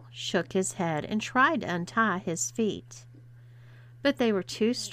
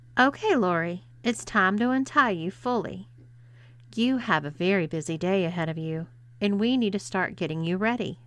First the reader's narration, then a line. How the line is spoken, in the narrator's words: said Paula